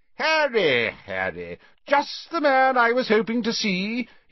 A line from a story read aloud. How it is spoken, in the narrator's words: he boomed genially